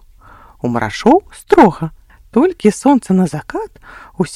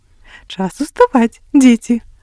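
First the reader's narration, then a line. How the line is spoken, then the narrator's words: Mother, tender and gentle. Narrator (Belarusian): Ласкава будзіла матуля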